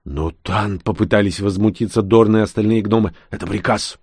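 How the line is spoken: Growl. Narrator (Russian): прорычал я

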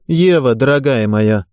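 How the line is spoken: Cold remark. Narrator (Russian): холодно заметила Ирина Владимировна

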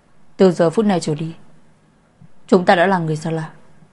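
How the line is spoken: Cold. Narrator (Vietnamese): lạnh lùng nói

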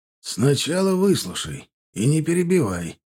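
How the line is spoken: Slightly hoarse. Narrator (Russian): сказал хрипловато Кулым

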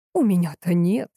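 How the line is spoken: Sigh. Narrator (Russian): вздохнула Суздальцева

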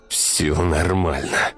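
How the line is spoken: Through gritted teeth, in pain. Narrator (Russian): процедил сквозь зубы мужчина, захлебываясь болью

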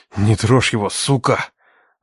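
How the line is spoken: Forced through gritted teeth. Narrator (Russian): Выдавил я сквозь зубы

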